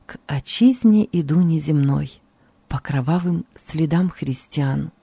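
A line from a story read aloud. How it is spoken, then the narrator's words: Quiet singing. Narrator (Russian): я тихо пел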